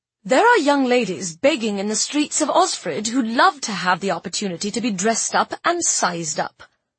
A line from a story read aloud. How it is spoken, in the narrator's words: said sharply